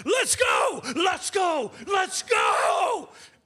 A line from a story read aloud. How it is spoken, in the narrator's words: he's yelling